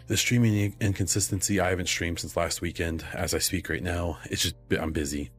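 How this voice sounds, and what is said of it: Voice sounds sick. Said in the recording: “I was sick this week. You might be able to hear it in my voice. I'm still not completely better.”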